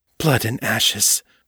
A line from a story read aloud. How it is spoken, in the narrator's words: Morgan muttered